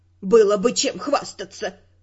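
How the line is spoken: Snort. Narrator (Russian): фыркнула Доротея

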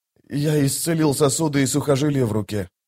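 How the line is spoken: Quiet. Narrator (Russian): тихо сказал он

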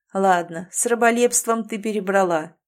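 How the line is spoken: Laughing. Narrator (Russian): засмеялся он

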